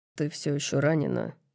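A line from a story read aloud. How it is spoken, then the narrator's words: Mumbling. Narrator (Russian): бормочет он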